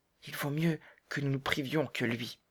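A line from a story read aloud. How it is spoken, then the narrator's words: Low voice. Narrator (French): dit Inès à voix basse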